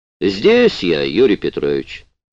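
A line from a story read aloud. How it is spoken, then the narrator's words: Slightly mocking. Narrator (Russian): чуть насмешливо ответил Гуров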